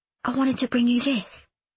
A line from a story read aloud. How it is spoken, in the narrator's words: Lizzie whispered